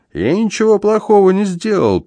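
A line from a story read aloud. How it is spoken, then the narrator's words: Squeaking. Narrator (Russian): пискнул Пака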